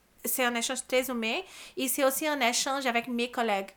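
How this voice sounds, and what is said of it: Brazilian accent in French. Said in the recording (French): “mon accent ... un immigrant ... vient du Brésil”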